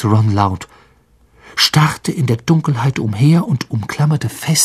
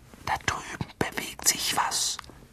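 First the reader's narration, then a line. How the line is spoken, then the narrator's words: Whisper. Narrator (German): flüsterte Harry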